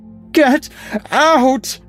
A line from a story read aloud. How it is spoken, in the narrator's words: Madeline screamed